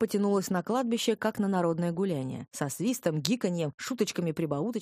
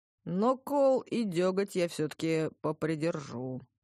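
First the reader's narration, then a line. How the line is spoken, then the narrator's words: Drawling disappointed bass. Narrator (Russian): протянул басом явно разочарованный кузнец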